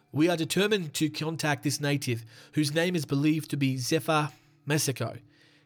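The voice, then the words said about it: Put-on accent reading a quote. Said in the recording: “Should I do the accent? Probably. It's probably not in good taste into the accent. I'll try and do it good.”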